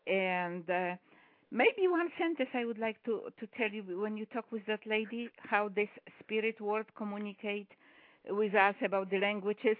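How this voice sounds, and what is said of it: Polish accent in English. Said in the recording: “I am from Poland, so you might hear some accent.”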